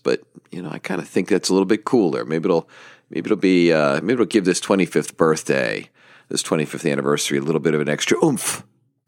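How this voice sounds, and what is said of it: Deeper voice from mild illness. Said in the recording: “I either have a little bit of a bug ... in the breathing department ... my voice is a little bit deeper”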